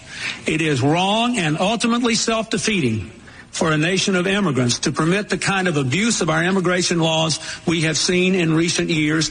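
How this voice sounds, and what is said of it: Southern American accent. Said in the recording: “That could have been Trump saying that, except for the Southern accent.”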